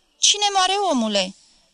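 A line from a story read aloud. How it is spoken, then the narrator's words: Relieved shout. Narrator (Romanian): strigă părintele răsuflând ușurat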